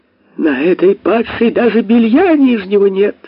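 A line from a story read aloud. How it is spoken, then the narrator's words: Screaming. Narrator (Russian): завопила она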